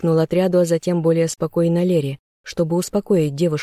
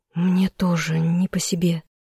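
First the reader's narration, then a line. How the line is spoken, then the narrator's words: Quiet. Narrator (Russian): тихо сказала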